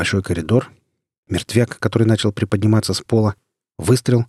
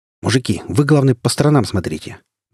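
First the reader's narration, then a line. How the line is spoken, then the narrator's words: Sharp adrenaline-charged shout. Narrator (Russian): Даже прикрикнул я, чувствуя, как адреналин покалывающими пульсациями растекается по организму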